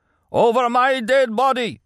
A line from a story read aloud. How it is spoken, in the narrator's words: he cried